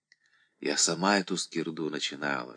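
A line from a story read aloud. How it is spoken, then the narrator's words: Distant whisper. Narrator (Russian): шептала где-то Альбинка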